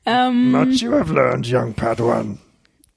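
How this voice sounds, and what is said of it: Yoda impression. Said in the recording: “I just did a Yoda impression. I don't know if you realised, I did a Yoda impression.”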